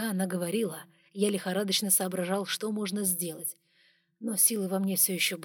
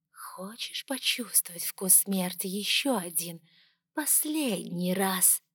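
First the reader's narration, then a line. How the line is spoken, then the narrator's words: Whisper. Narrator (Russian): прошептала она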